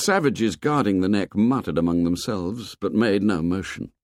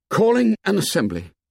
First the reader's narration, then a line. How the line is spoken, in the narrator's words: His first words were a gasp, but audible